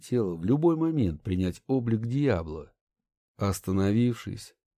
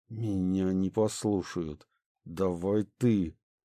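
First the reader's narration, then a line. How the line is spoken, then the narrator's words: Tense, through gritted teeth. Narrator (Russian): Понимая, что сейчас прольется кровь, сквозь зубы обратился наставник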